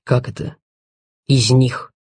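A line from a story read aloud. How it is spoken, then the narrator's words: Sighing. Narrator (Russian): Титов вздохнул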